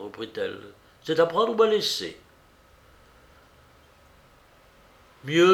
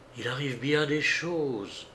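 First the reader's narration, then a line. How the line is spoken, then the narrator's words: Girl speaking softly. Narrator (French): dit tout bas la jeune fille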